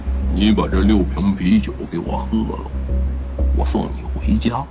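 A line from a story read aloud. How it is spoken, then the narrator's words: Deliberately lowered voice. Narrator (Chinese): 孟浩然刻意的压低声音提醒黄潇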